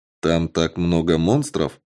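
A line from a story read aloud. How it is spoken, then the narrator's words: Plain. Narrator (Russian): вновь спросил я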